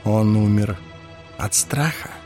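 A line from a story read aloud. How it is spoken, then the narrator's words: Whispered question. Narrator (Russian): шепотом спросил Ларт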